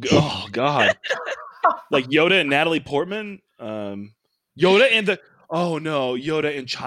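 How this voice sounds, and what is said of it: Usual voice. Nothing is said of it.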